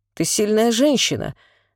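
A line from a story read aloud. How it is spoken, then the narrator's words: Tender. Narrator (Russian): сказал Белов, нежно целуя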